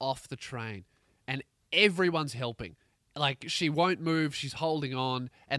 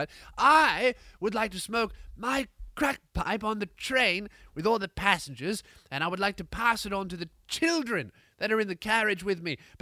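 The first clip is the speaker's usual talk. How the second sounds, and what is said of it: Put-on English accent. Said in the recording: “I don't know why she has an English accent, but for this bit she does, right? ... She's so high she's turned English.”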